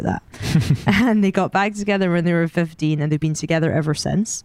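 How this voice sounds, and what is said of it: Scottish accent. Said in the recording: “as you can tell from my accent, I'm Scottish. Maybe you can't tell”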